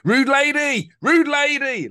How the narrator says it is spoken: someone shouted out

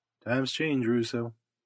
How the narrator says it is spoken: he answered quietly

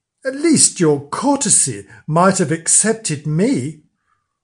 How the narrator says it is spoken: the new queen flushed up and cried out

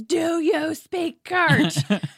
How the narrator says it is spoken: his dad yells

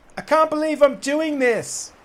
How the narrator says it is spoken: he called out

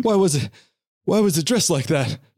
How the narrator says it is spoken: He cried

